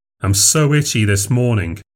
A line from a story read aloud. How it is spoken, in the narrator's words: he said